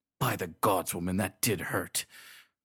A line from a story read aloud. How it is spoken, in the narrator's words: grunted the solemn-faced warrior